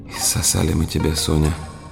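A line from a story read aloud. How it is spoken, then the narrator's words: Whisper on waking. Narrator (Russian): прошептала она, очнувшись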